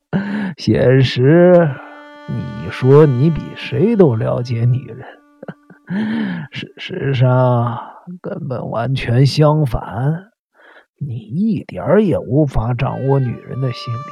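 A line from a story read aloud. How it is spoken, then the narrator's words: Triumphant laughing. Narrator (Chinese): 我露出了胜利者的姿态，大笑着说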